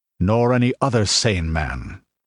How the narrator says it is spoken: answered Conan grimly

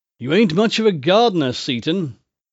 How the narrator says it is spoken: I said, with a sigh of ease

